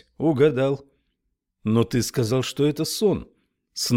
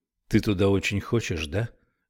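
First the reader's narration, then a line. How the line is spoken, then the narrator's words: Quiet question. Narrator (Russian): тихо спросил Томми Рэй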